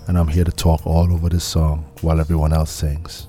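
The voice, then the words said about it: Exaggerated deep voice. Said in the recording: “I'm him, the deep voice guy.”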